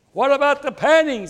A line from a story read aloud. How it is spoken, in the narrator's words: screamed out